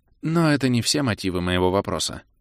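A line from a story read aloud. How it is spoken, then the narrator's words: Sighing older woman. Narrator (Russian): вздохнула старшая дриада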